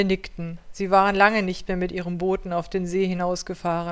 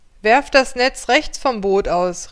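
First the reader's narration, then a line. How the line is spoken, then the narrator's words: Man calling out. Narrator (German): rief der Mann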